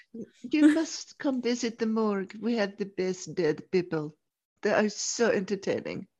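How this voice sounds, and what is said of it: Put-on unidentified foreign accent. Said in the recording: “I don't know what this accent is, but let's stick with it.”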